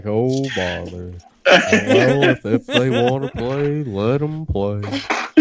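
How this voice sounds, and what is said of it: Good Eeyore impression. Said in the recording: “That's a great impression of Eeyore. ... That's not too bad. That's not too shabby.”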